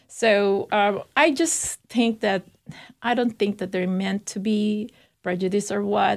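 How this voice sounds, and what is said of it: Non-native English accent. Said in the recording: “when I speak, they can hear my accent. So most of the time they know that I'm not from here.”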